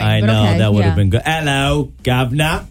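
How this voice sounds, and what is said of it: Weak attempt at British accent. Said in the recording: “I can't do the British accent. ... A little more cockney.”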